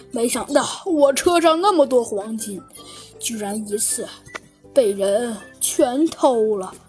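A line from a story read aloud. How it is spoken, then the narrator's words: Sighing speech. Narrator (Chinese): 唉，他叹了口气，说道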